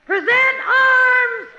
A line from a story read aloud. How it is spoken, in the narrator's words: I just yell